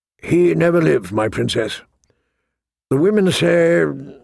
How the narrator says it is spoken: faltered

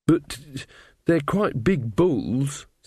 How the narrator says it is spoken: said Magrat nervously

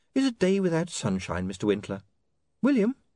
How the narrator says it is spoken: said Saccharissa sweetly

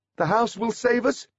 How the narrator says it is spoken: asked Holly nervously

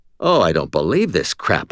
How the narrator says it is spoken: I muttered

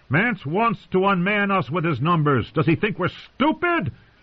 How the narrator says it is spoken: He was shouting now

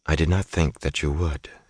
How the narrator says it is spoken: she said coolly

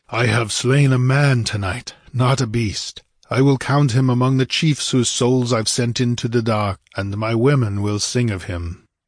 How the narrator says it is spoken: he panted

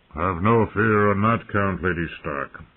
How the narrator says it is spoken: the Great John told her in his bass rumble

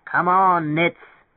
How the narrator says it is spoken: bellowed, his cheek against the wood

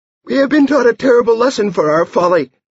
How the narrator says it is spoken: he squeaked, and his voice echoed in his ears, delighting him

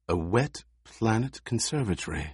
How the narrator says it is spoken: she breathed

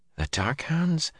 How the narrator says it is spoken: Zareen muttered

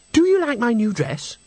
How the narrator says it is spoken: she exclaimed

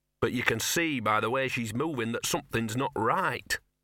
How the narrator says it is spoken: said Gaspode desperately

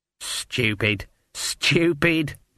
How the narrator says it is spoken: muttered Granny

